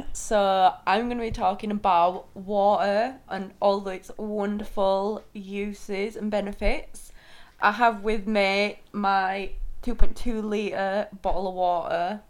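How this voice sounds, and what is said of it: Yorkshire accent. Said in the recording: “just for anybody down south, that's water she's talking about. ... Water. Yorkshire accent.”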